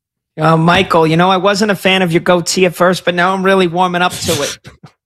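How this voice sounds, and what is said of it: Exaggerated Jersey Shore style voice. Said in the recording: “Great impression. ... you just turned your wife into like a Jersey Shore character.”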